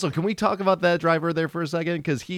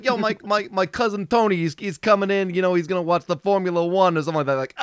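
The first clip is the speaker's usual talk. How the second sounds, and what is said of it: Thick New York accent. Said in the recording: “he had like the thickest New York accent I've ever heard in my entire life. Like, ... like comically like thick”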